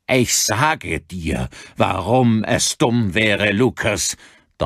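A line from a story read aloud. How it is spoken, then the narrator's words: Thundering. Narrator (German): donnerte Gavin Daly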